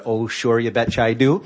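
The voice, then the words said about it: Put-on Minnesota / North Dakota accent. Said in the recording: “that guy doesn't sound like he's from North Dakota ... I just tried to get rid of that accent, but it can come back”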